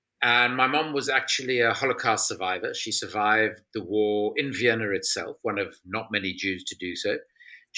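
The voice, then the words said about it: South African accent. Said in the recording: “I'm South African, as most people can probably hear from my accent.”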